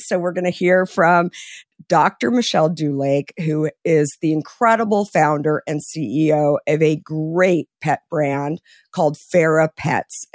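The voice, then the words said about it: Hoarse, partly lost voice. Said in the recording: “Excuse the voice. I was having a little too much fun over the last few weeks on some girls' trips, and so I lost my voice”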